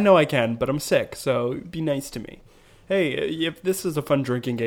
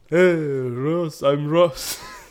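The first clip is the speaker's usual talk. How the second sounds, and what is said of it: Put-on European immigrant accent. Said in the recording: “European immigrant accent ... I feel like you can do better.”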